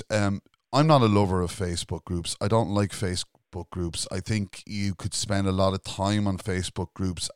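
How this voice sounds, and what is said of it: Irish accent. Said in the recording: “we're here in Ireland. You can tell by the accent”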